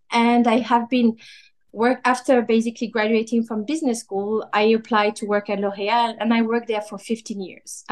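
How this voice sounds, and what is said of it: Slight French accent. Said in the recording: “I'm French, hence the slightly French accent.”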